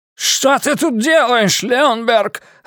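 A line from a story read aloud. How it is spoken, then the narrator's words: Yelling. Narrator (Russian): орал он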